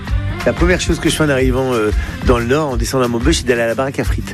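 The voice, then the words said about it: Northern French regional accent. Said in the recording (French): “n'a jamais perdu ni son accent, ni ses traditions du Nord ... cet accent, pour moi, c'est une carte postale ... avec cet accent, on sait que je viens pas de là où je suis, on sait que je viens du Nord”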